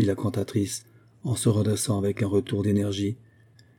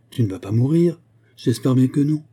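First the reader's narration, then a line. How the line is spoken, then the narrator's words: Frightened exclamation. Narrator (French): s'écria Olga effrayée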